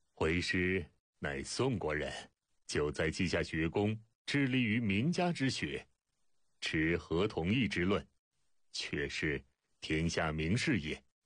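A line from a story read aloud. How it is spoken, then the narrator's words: Smiling reply. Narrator (Chinese): 孟子微笑答道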